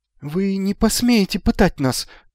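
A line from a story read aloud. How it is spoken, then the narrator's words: Thin-voiced. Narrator (Russian): тонким голосом сказал Магнан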